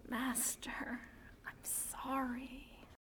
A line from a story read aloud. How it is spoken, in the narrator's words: Anakin alone and unhappy whispers